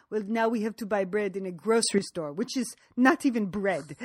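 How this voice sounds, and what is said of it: Put-on French accent. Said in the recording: “Nice French accent.”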